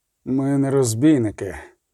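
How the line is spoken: Strained groan. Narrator (Ukrainian): Застогнав зверху Геральт, ледь здобуваючи голос із грудей, здавлених гілками

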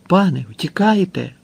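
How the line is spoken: Male exclamation. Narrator (Ukrainian): вигукнув він

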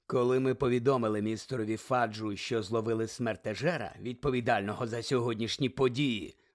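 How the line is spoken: Low voice. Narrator (Ukrainian): низьким голосом сказав Снейп

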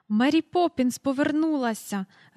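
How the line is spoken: Joyful, into the phone. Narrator (Ukrainian): радісно повідомила вона в трубку

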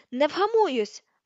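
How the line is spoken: Shouted. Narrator (Ukrainian): закричала

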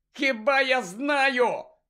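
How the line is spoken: Shouted. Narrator (Ukrainian): закричав Гаррі

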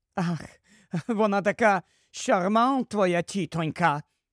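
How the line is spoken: Angry grumble. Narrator (Ukrainian): сердито буркнула Флер

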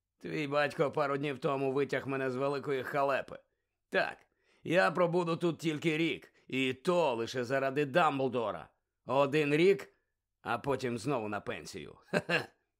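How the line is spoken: Hoarse guffaw. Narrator (Ukrainian): Він хрипло реготнув

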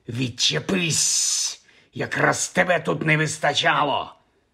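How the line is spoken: Hissed. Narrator (Ukrainian): зашипів

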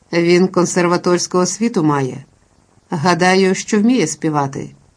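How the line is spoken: Calm reply. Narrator (Ukrainian): відказав Майкл спокійно

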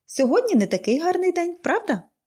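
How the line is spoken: Cheerful question. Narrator (Ukrainian): весело запитала

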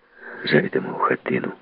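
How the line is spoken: Quiet, indistinct question. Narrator (Ukrainian): запитав тихо, невиразним голосом

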